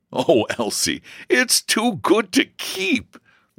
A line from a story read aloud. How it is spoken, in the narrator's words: laughed George